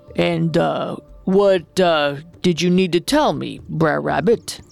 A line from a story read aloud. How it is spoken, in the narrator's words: stammered the bear